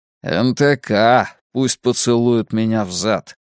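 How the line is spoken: Grumbled. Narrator (Russian): пробурчал Мунк

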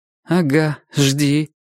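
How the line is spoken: Skeptical snort. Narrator (Russian): хмыкнул Костя

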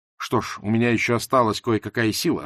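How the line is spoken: Growling. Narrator (Russian): рычал он

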